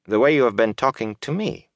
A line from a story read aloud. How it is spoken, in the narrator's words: she added dryly